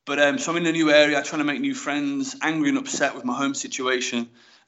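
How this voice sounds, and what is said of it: Regional English accent. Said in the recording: “The accents were funny. I've now got that accent,”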